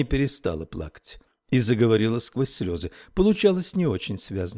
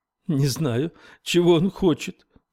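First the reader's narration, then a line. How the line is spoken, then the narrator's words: Sobbing. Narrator (Russian): всхлипывала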